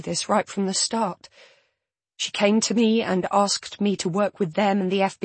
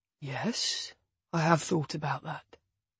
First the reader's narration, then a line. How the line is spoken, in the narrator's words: he says calmly